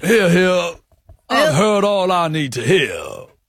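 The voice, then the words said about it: American detective-style character voice. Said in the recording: “Judge Jarchi was American in the intro. I'm wondering if I bring that a bit ... you sound like a detective character”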